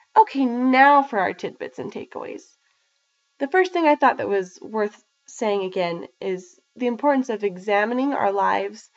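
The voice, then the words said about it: Sick, strained voice. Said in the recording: “my voice was not the best, and I did cough a few times... I had COVID. And I still do, so my voice isn't the greatest during this recording”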